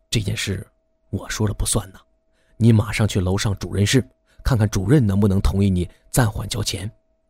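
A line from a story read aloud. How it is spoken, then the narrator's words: Sighing whisper. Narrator (Chinese): 医生 叹了口气，他悄声地对大山说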